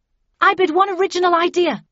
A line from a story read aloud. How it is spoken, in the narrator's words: I shouted